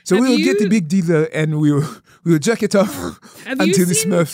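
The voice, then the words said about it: Put-on Nigerian accent. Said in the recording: “I was trying to, like, shift into a Nigerian accent... of course I can do a Nigerian accent... I've been mocking my father”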